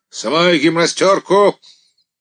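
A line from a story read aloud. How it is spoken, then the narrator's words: Ringing commanding voice. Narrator (Russian): приказал звенящим голосом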